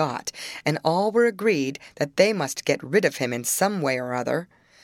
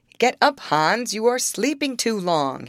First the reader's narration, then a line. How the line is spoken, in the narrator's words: cried